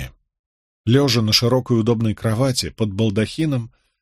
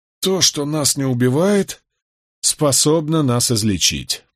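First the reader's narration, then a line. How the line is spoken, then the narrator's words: Muttering. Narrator (Russian): пробормотал я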